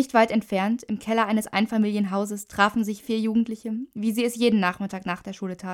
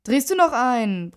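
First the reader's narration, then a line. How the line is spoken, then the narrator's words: Bellowing. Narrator (German): brüllte Alex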